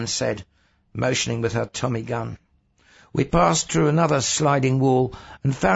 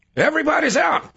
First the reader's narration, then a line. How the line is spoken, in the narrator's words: the driver shouted